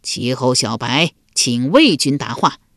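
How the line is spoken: Loud call. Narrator (Chinese): 齐桓公高声叫道

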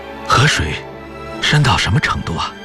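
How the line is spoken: Sick, breathless question. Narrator (Chinese): 邓颖超正在患病，他便喘息地问

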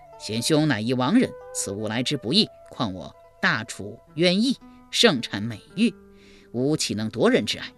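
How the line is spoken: Plain. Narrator (Chinese): 一边说

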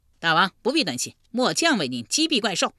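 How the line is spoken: Loud. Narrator (Chinese): 车右窦伯大声说道

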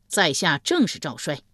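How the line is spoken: Loud reply. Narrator (Chinese): 赵衰高声应道

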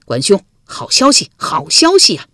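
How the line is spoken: Loud clamoring. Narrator (Chinese): 赵乎大声嚷嚷着

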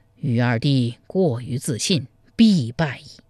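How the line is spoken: Regretful sigh. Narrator (Chinese): 柴荣扼腕叹曰

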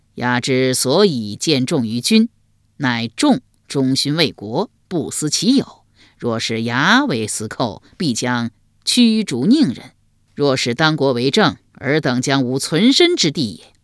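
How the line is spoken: Hearty laughter. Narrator (Chinese): 鲍叔牙哈哈大笑道

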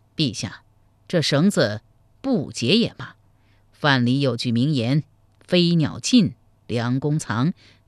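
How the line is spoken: Cold voice. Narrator (Chinese): 王浚冷声说道

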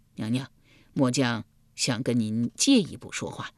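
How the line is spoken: Heavy sigh. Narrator (Chinese): 易牙重重地叹了一口气道

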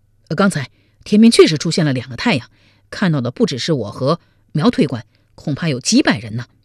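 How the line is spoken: Hurried reply. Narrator (Chinese): 楚昭甫急忙地应道

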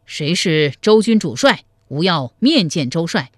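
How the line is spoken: Loud, inwardly fearful call. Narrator (Chinese): 心中发怯，登上城楼高声叫道

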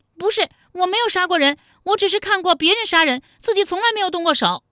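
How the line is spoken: Shrieking. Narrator (Chinese): 武灵觉尖叫道

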